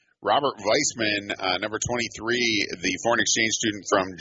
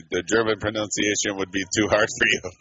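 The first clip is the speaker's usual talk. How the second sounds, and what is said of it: Deliberately bad German accent. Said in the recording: “I'm going to do a terrible German accent”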